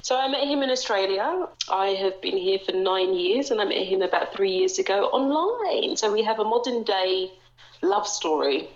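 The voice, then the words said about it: London English accent, slightly Australian. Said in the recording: “where is your gorgeous accent from?... I am from the UK. I am from London... people from London back home think that my accent's disappearing... everyone in the UK will think you're sounding very Australian”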